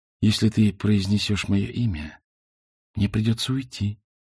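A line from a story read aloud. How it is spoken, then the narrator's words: Whisper. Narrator (Russian): шепнула она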